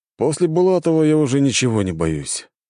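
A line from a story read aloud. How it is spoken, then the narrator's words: Resigned sigh. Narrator (Russian): обреченно вздохнул цесаревич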